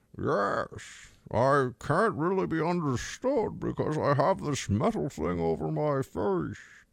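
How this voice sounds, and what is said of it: Muffled movie villain voice. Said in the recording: “My Bane impression probably needs some work, but it's just it's in the right it's in the right general spot.”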